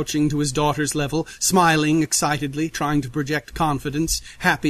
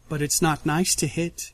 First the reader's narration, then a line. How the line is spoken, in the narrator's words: she says softly, smiling so sheepishly